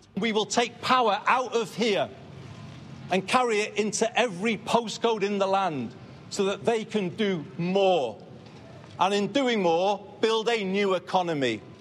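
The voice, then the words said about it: Northern English accent. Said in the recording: “the first British PM in 50 years to have a North of England accent”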